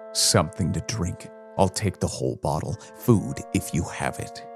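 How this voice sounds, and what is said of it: Tired weary character voice. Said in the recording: “in a tired voice”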